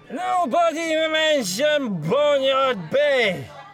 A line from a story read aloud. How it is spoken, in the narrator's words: He bellowed